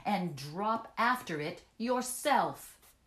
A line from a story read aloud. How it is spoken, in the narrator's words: shouted